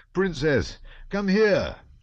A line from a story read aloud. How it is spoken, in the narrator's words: he shouted